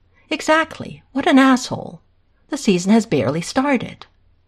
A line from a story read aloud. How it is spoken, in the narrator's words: Hayden exclaims again, exasperated